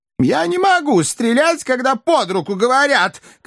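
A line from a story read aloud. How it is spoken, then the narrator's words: Hippo's shout. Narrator (Russian): кричал бегемот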